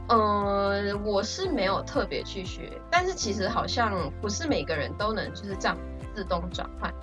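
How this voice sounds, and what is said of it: Taiwanese Mandarin accent. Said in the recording (Chinese): “你是我，真的是我认识的马来西亚境外生里面口音真的超像台湾人的”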